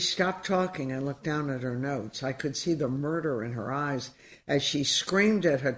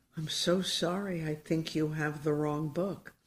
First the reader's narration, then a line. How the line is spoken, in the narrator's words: in my weakest most frightened voice, I said